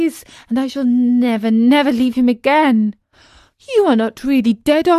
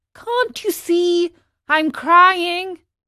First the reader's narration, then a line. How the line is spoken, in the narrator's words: cried poor Pinocchio